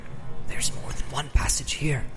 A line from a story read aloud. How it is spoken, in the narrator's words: he whispered with an effort